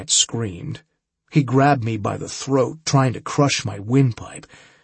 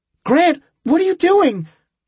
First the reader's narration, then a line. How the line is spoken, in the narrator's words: Julie cried